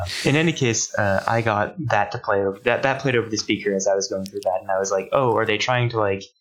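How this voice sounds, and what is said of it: Usual voice. Nothing is said of it.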